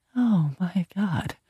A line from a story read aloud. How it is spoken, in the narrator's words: I whispered